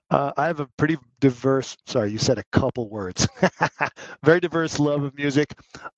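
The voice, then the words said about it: Raspy voice. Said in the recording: “I was actually at a concert last night, so pardon my raspy voice.”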